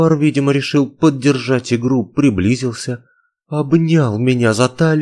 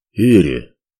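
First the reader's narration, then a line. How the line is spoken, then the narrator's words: Slightly hoarse remark. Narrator (Russian): чуть хрипловато заметил он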